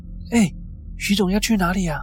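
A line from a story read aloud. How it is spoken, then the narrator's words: Loud, urgent call. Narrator (Chinese): 冲出去大声的叫他们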